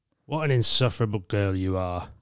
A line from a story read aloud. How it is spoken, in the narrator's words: Alcor growled